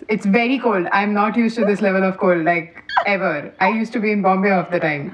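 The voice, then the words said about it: Indian English accent. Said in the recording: “I'll have more Indian accent than I had when I entered”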